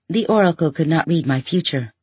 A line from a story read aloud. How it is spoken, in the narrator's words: you said